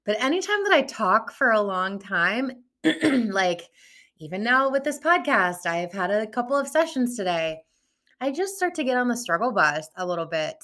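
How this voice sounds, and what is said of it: Strained, recovering voice. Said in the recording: “my voice has not been stellar, and I'm just now kind of starting to get it back ... recuperate this voice”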